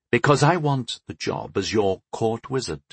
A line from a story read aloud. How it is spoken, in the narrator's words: he answered calmly